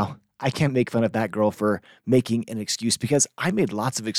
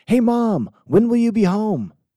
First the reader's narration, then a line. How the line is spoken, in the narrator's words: yelled upstairs